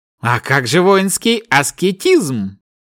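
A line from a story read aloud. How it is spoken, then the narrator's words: Snorting reply. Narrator (Russian): хмыкнув, Кай ответил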